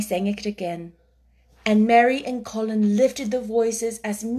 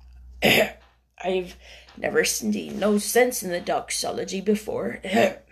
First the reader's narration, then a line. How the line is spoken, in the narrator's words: said hoarsely